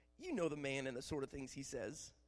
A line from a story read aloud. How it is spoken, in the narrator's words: Jehu replied